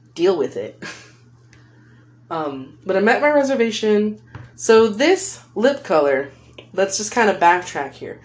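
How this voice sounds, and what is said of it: Californian accent. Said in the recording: “I said reservation in a really weird way earlier. That's just my accent, man. I'm a California girl.”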